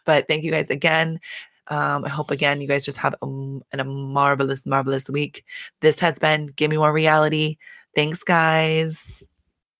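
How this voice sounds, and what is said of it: Hoarse, voice giving out. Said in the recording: “my voice keeps going out today.”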